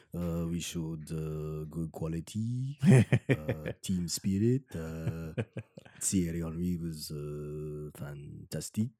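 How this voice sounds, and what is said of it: Put-on French accent imitation. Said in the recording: “terrible French accent ... I'm channeling my inner Arsene Wenger ... It's not an easy accent to just to phony”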